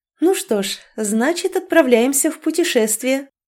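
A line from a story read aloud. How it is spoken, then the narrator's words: Overly cheerful command. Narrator (Russian): Преувеличенно бодрым голосом проговорила, и, подыгрывая Даррену, скомандовала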